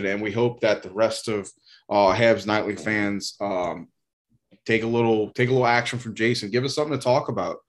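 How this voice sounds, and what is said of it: Southern American twang. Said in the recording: “my dialect is a bit off because it's fucking southern twang”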